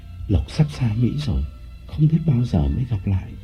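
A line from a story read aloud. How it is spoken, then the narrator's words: Breathy intimate murmur. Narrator (Vietnamese): Lộc nói qua hơi thở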